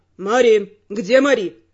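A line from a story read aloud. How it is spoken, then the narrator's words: Barked. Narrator (Russian): рявкнул виконт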